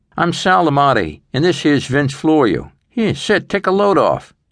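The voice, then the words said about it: Brooklyn accent, big guy voice. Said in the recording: “the big guy said with a Brooklyn accent”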